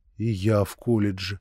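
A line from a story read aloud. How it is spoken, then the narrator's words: Quiet, agitated. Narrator (Russian): тихо с волнением промолвил я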